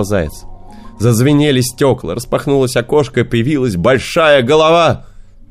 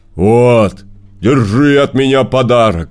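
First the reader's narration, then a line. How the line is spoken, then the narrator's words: Bear's growl. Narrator (Russian): прорычал медведь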